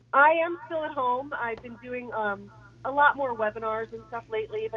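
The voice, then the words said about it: Raspy voice from illness. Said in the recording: “apologies if I got a little cough ... kind of a sexy sound to that voice there ... My raspy voice.”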